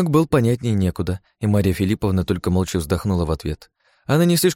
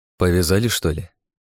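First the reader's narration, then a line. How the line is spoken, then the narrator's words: Gloomy question. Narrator (Russian): мрачно поинтересовался Серёга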